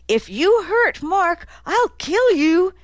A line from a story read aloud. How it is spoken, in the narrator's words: shouting at her eldest son